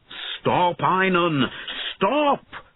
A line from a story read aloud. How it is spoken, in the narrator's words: shouted Bowen